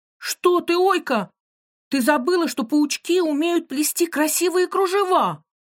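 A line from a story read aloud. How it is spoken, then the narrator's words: Exclaiming. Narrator (Russian): воскликнула Маша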